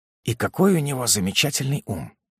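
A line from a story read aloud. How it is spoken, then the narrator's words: Near whisper. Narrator (Russian): проговорил почти шепотом кавалер Рускони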